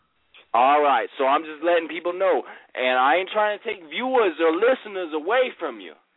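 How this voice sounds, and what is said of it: Loud, intoxicated voice. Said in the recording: “I'm heavily intoxicated. I know my tone of voice is loud.”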